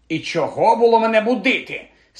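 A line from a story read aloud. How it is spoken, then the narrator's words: Grumpy stout lady grumbling. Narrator (Ukrainian): сварливо буркнула гладка пані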